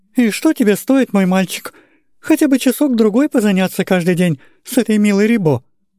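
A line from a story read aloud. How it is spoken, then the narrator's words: Timid elderly woman. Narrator (Russian): Робко начала старая генеральша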